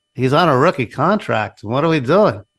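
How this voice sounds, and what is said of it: Robert Kraft impression, Seinfeld-like. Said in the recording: “your Robert Kraft impersonation? ... Got a touch of Seinfeld in there.”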